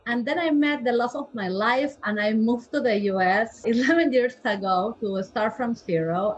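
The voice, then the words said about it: Peruvian Spanish-accented English. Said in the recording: “I am originally from Peru, so I am a Latin girl... probably my accent”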